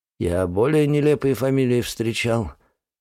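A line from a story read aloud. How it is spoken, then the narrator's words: Suddenly hoarse voice. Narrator (Russian): внезапно охрипшим голосом произносит Сапогов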